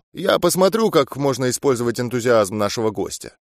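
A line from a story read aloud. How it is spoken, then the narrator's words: Quick speech. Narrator (Russian): Он быстро сказал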